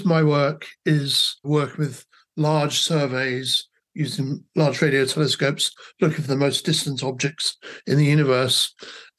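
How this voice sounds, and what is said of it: English accent. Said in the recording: “I grew up in England, as you can probably tell from my accents, although I've spent most of my life in Australia”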